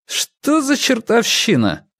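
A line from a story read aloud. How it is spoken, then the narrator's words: Irritated question. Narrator (Russian): раздраженно поинтересовался он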